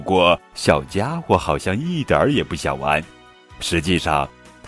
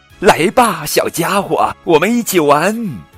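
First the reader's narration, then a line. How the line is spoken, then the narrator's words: Ecstatic shout. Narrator (Chinese): 小帕欣喜若狂，大声喊道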